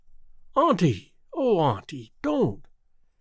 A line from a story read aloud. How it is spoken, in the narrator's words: exclaimed Theodora impulsively